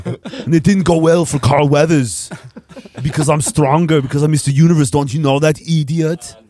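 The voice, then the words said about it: Imitates another person's voice. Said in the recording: “Arnold”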